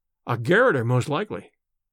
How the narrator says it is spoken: said Smith

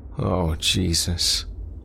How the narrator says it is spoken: Craig moaned

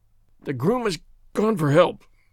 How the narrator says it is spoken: groaned the sufferer

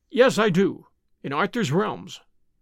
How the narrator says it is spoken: he answered

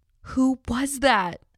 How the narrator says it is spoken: I cried

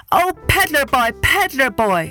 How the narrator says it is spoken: the monkey cried

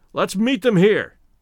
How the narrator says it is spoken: shouted Stoddard

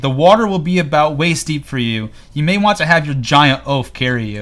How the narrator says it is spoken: Euron yells to Cersei

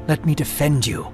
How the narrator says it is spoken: Johanan whispered

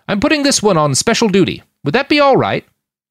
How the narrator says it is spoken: he snapped back at the older woman

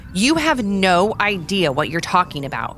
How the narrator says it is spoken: Connor snapped at Shelby

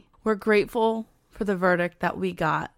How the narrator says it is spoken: he said

